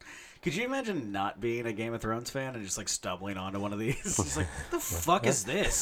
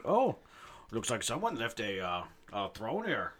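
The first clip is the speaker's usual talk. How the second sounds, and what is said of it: Attempted Swedish accent, sounds Canadian. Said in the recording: “All my Swedish accents sound Canadian.”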